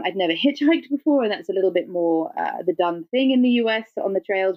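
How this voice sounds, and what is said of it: British English accent. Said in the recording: “my English accent and being British”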